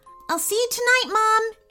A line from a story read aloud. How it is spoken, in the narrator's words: exclaimed Emily